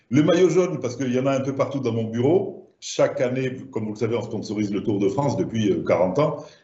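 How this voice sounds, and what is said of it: Southern French accent. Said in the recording (French): “comme mon accent doit vous le laisser penser, je suis du sud de la France”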